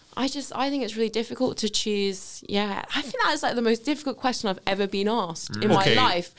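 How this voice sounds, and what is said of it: Southwest London English accent. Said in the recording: “I'm from Wimbledon originally, so it's very southwest wanky accent ... that's why I'm speaking southern again”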